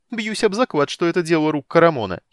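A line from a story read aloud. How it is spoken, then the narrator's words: Giggled. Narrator (Russian): хихикнул Тасс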